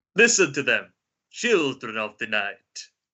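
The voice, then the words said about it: Put-on accent performing a film line. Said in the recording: “at risk of getting cancelled for doing the accent, I'll act this one out for you”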